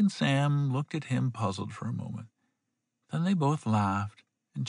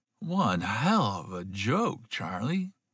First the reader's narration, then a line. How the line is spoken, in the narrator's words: Sam choked